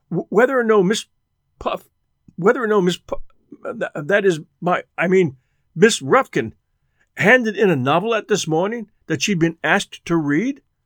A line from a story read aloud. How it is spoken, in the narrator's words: stammered